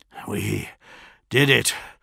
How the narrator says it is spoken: gasped

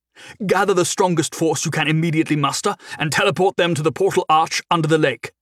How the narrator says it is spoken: he barked

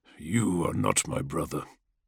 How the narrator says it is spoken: the dragon grunted as he shifted his pained form

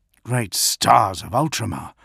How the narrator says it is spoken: Vodun Badorum murmured

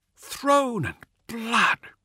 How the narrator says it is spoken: breathed Carno, his words carried across the vox to all of his comrades

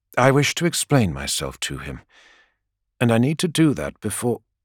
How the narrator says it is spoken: says Sanguinius gently

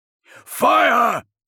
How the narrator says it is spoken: he shouted again

